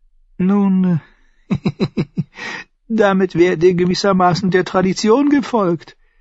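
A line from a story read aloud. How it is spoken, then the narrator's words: Giggling eunuch. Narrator (German): der Eunuch kicherte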